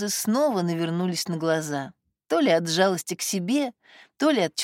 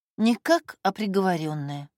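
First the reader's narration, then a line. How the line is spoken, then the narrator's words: Sighing. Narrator (Russian): вздохнула Катя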